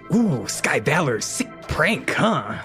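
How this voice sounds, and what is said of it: The mayor character's voice. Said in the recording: “unfortunately for the mayor, I love doing his voice ... Who has the most annoying voice to do?”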